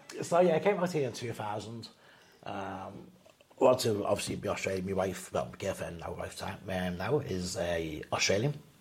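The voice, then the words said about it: Liverpool English accent. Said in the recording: “I'm from the UK, from Liverpool ... I didn't even know you had an accent.”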